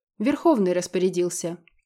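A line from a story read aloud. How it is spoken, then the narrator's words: Calm purring predator. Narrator (Russian): также спокойно проурчал хищник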